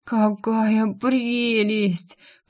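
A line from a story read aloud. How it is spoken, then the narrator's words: Ecstatic moan. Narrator (Russian): практически простонала я во вкусовом экстазе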